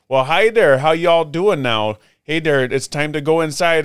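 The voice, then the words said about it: Exaggerated high-pitched far-north Midwest accent. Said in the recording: “everybody sounded like... they make us sound like idiots... we got this super high... it's like the really up north accent... it's way up north”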